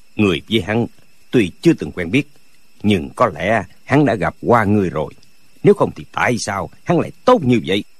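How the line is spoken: Cold. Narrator (Vietnamese): Dư Thương Hải lạnh lùng nói

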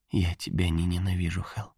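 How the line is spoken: Faint mouthed whisper. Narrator (Russian): Пока она могла говорить, шепнула одними губами

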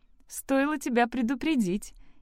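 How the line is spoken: Giggling. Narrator (Russian): хихикнула Лекси

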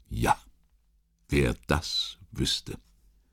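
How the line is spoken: Dull hollow voice. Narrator (German): Bethmann antwortete mit dumpfer Stimme

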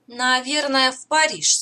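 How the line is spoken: Plain. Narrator (Russian): сказала Эля

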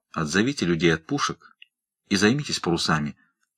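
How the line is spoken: Quiet, unnaturally restrained voice. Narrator (Russian): тихо сказал Бигнал, и неестественная сдержанность его голоса только подчеркнула серьезность положения

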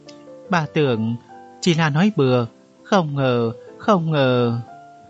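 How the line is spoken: Trembling old woman. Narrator (Vietnamese): Bà cụ run rẩy nói

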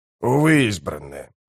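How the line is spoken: Mutter. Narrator (Russian): пробормотал он

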